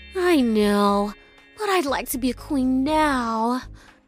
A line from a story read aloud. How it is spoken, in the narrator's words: she sighed dreamily